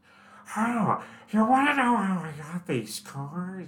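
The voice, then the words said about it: Joker character voice impression. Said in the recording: “my Joker impression”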